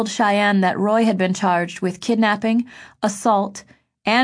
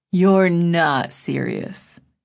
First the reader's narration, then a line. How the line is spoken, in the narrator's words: Then Griffin said slowly